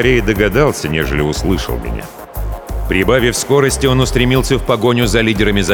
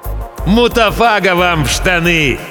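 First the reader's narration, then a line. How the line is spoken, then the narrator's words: Friendly shout. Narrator (Russian): Приветливо улыбаясь, крикнул я в ответ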